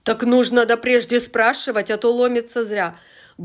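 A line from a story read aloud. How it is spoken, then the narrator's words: Rude nurse. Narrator (Russian): грубо сказала сиделка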